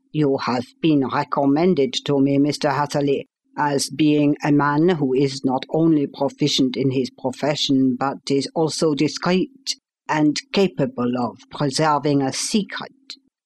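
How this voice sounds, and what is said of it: Slight German accent. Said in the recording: “with something of a German accent”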